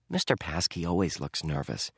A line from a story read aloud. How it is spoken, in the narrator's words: Dink whispered back